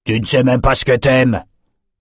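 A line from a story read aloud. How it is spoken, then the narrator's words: Roaring. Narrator (French): rugit Yorick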